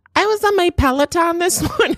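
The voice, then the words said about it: Ditzy white girl voice. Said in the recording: “ditzy white girls... I just did the voice... we're pro accent here... That was a hot voice... hot white girl on a Peloton”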